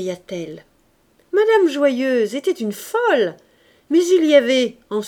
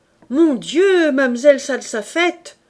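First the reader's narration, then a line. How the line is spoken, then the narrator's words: Many voices crying together. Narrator (French): s'écrièrent une douzaine de voix ensemble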